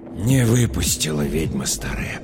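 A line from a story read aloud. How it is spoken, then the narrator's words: Whisper. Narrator (Russian): прошептал Михаил Матвеевич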